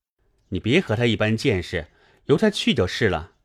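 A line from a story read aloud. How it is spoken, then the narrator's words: Laughing. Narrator (Chinese): 宝玉笑道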